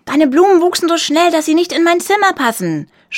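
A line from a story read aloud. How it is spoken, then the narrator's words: Shouting. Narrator (German): schrie er ihr zu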